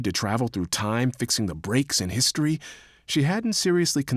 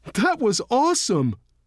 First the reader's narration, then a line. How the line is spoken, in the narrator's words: Dak called out